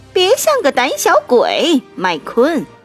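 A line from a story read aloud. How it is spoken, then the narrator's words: Mocking. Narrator (Chinese): 路霸嘲笑这位新手赛车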